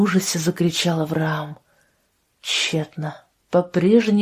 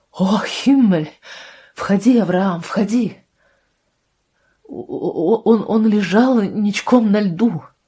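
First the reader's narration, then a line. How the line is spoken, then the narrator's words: Stammering. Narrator (Russian): сказал, заикаясь, Авраам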